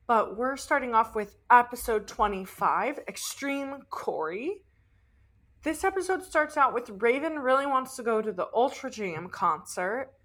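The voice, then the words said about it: Raspy voice from sore throat. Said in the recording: “my voice. It's a little raspy. I'm just slightly under the weather recovering from a sore throat ... my voice is not what it normally is”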